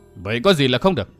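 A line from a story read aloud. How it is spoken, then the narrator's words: Stern voice. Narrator (Vietnamese): Thiết Bá Thương Long nghiêm giọng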